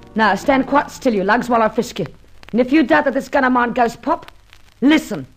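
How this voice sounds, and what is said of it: Hard-boiled London accent. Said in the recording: “non-continental. Nothing, in fact, but sheer, hard-boiled London ... you were more charming when you had that foreign accent”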